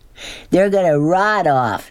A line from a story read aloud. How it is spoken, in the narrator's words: Norton yelled